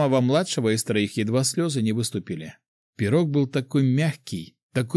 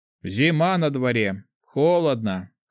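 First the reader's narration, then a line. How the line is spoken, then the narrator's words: Chuckling. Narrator (Russian): хохотнул третий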